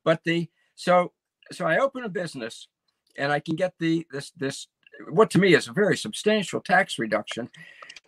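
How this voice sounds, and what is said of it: Hoarse voice. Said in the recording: “That's why I'm hoarse right now, is because how cold it is outside.”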